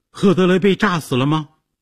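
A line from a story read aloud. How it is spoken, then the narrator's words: Shouted question. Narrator (Chinese): 杰西卡大叫着问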